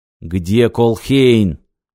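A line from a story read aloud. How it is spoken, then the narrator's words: Growl. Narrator (Russian): прорычал Сагетти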